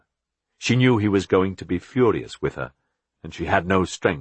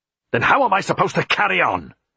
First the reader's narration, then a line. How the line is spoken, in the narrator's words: He shouted angrily